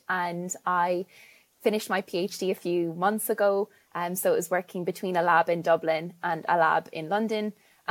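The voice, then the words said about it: Irish accent. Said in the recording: “you can hear by my accent that I'm Irish”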